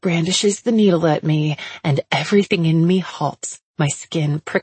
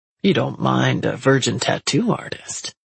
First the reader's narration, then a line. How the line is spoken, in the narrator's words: he says in a low and sexy voice